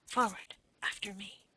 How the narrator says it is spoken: whispered

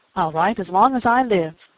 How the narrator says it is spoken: cried the boy impetuously

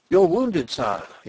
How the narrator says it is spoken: he exclaimed

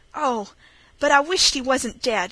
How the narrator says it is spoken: he cried

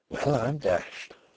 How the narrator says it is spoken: He could only keep repeating very softly to himself

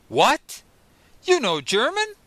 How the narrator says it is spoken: I exclaimed

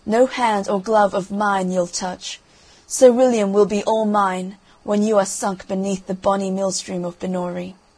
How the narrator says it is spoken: cried the cruel princess

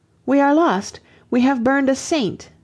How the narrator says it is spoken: an Englishman cried out

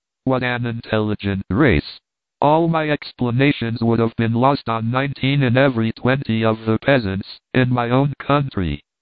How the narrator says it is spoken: Paganel, triumphing in his pupil, exclaimed

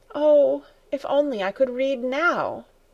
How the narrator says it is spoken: Heidi, with a sigh, exclaimed

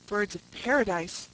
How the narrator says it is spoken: I exclaimed

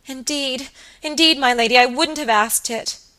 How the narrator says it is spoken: sobbed Phoebe Marks

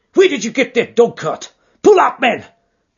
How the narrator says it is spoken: he yelled

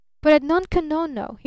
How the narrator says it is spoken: he cried eagerly

